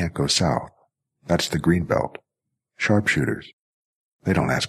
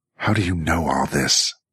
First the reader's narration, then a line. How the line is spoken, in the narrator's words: Jackie snarled